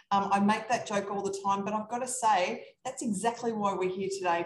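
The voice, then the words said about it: Australian accent. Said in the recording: “I'm from Australia. That's this funny accent going on here”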